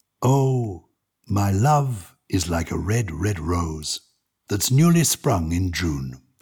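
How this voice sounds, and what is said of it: English accent. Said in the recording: “I'm going to read it with my English accent”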